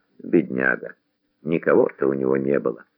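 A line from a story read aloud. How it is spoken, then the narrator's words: Fat man whispering funeral prayer. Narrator (Russian): Толстяк шептал за упокойную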